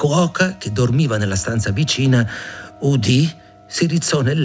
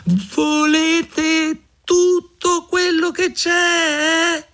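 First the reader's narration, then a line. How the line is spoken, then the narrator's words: Shouting with all strength. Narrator (Italian): Mignolino si mise a gridare con tutte le forze che aveva in corpo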